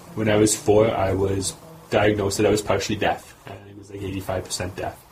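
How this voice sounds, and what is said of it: Slight speech impediment, accent-like. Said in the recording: “maybe you can hear a bit of my accent. Uh, it's actually a speech impediment.”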